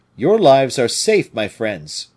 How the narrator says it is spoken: cried he

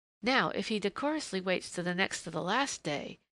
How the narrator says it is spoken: murmured Jinny to herself

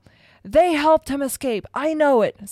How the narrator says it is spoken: Snape howled

